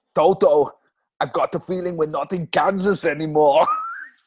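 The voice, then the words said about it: Arnie impression. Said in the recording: “that is an impression of me doing an impression of Arnie.”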